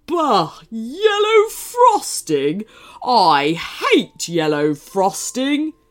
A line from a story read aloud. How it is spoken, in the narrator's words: groaned rudely